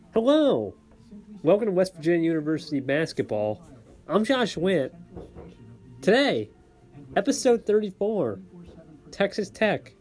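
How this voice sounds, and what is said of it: Imitates another person's voice. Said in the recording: “doing a Josh Witt impression”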